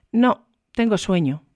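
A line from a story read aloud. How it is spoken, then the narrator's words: Curt female reply. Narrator (Spanish): respondió ella secamente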